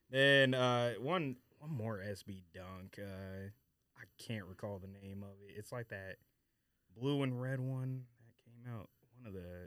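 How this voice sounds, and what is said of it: Speaking too quietly. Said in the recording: “move the mic closer. You're talking too low. ... You gotta talk. Come on, man. You gotta project.”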